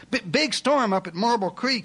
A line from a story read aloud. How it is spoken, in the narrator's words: finally shouted